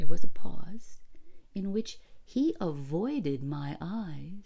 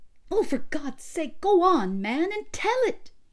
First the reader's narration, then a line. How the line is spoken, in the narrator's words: cried, for the suspense was getting more than I could stand in my nervous condition